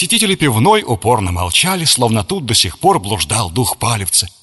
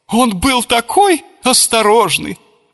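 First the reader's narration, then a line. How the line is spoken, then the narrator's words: Sobbing. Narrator (Russian): рыдала хозяйка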